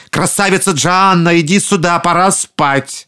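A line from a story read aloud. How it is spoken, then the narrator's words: Alarmed shout. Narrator (Russian): людоеды почувствовали неладное и крикнули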